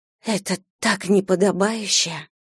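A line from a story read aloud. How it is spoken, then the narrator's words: Breathed out. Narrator (Russian): выдохнула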